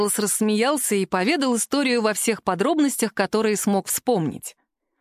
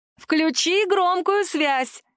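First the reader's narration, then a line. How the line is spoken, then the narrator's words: Shouted from background. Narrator (Russian): крикнула Алекса на заднем плане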